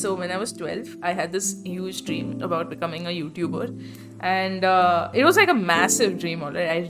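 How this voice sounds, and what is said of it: Bangalorean Indian accent. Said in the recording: “I've just adapted this Bangalorean Indian accent.”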